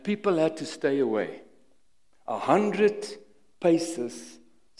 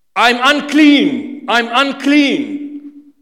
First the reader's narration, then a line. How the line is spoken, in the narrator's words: they had to shout